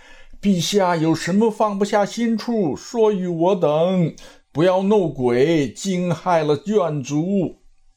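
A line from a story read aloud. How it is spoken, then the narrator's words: Calling out. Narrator (Chinese): 徐茂公，魏丞相，秦琼，敬德叫道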